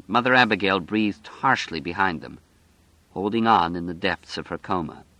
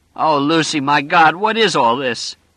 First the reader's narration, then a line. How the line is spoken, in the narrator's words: He cried out against her neck